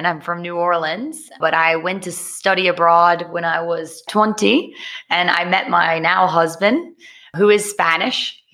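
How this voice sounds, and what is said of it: American accent. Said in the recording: “someone who sounds American”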